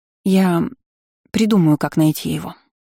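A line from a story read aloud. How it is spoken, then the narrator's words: Sighing. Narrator (Russian): вздохнула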